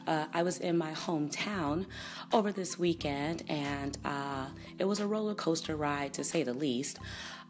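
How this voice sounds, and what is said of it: Hoarse voice. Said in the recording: “I am very hoarse from too much St. Paddy's Day celebration in Chicago”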